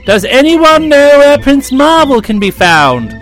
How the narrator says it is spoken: a courier came galloping swiftly up to the palace and cried

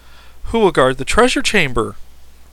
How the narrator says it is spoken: exclaimed the surprised Jim Fred

